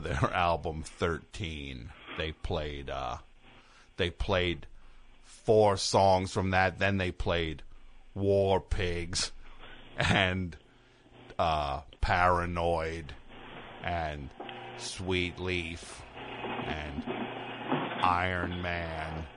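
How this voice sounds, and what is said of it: Jim Florentine impression. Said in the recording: “That's a great imitation... You're really good at that... my Jim Florentine impression”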